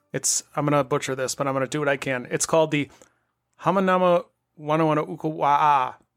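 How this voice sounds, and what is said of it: Midwestern American accent. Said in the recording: “my Midwestern accent”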